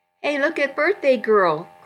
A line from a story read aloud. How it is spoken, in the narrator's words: Christy laughed